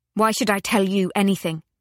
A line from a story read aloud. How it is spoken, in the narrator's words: she demanded fiercely